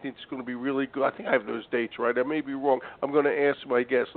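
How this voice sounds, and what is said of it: Voice sounds like he has a cold. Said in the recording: “this cold, which you could probably hear in my voice”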